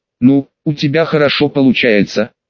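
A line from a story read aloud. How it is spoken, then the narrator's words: Sighing. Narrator (Russian): вздохнула Инка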